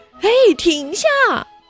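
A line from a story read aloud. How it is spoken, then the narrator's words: Shouting. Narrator (Chinese): 茉莉大喊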